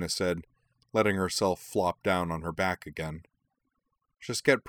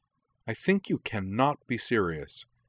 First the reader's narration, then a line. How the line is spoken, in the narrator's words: she said sharply